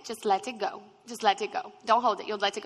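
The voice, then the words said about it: Imitated strong Indian accent. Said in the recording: “she has a very strong Indian accent... I'm going to try to imitate her, but my accents always go Australian”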